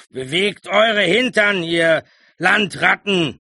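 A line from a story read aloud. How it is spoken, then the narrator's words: Bellowing. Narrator (German): brüllte Clovis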